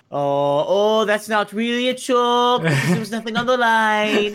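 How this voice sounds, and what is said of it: Put-on Jamaican accent. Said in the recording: “what was that accent? ... since when have we had a Jamaican host?”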